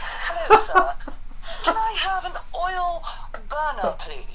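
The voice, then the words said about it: Put-on British accent. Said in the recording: “super Britishly be like ... the British accent”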